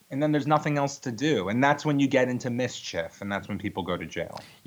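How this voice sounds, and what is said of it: Long Island accent. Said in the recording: “I love that Long Island accent.”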